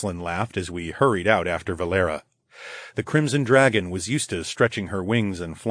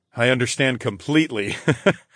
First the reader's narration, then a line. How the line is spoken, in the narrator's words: I chuckled